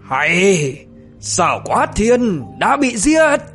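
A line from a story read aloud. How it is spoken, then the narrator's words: Thunderous shout. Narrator (Vietnamese): Tiết Cao Vân thì quát vang như sấm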